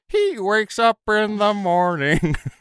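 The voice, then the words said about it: Imitates a singer's voice. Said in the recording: “my impression of the one song lyric I relate to the least”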